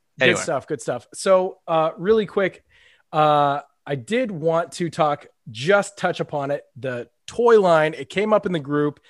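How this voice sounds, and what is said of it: Smiling while speaking. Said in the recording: “I'm ear to ear smiling right now. ... I can hear it in my own voice. I'm smiling.”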